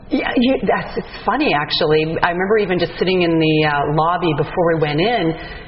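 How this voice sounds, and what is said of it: Canadian accent. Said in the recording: “she's got this Canadian accent”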